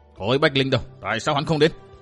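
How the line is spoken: Hissing through teeth. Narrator (Vietnamese): Đôi mày cau lại, một đàn bà họ Đông nói như rít qua cái răng

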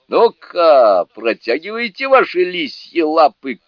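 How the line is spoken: Shouted. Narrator (Russian): крикнул он

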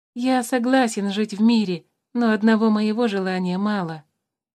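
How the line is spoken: Sad reply. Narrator (Russian): печально ответил тимиук

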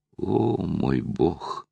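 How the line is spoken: Moan. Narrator (Russian): простонала Лара

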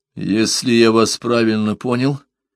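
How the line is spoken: Confused mumble. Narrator (Russian): растерянно пробормотал Парсел

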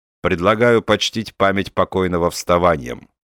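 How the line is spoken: Plain. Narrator (Russian): сказал Бендер

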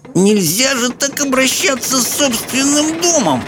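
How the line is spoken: Indignant groan. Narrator (Russian): Возмущенно простонала Софи

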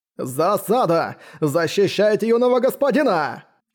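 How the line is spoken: Controlled loud command. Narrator (Russian): Скомандовал он достаточно громко, чтобы услышали все на борту, но чтобы его слова не разнеслись за пределы корабля

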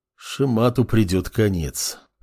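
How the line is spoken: Detached mutter. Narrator (Russian): отрешенно пробормотал глава государства

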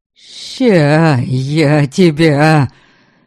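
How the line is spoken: Indistinct growl. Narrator (Russian): Невнятно прорычал Верем

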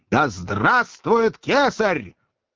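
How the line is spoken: Soldiers shouting terribly. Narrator (Russian): страшно прокричали солдаты

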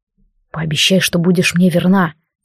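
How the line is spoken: Quiet. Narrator (Russian): сказал так же тихо

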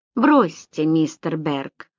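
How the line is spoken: Weary. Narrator (Russian): устало произнес Фрэнкел

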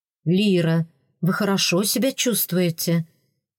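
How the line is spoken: Gentle question. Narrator (Russian): спросил Родерик де Лаэрт настолько мягко, насколько мог

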